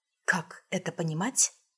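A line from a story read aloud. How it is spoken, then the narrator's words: Quiet question. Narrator (Russian): спросила я тихо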